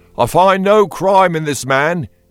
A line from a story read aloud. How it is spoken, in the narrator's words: he called out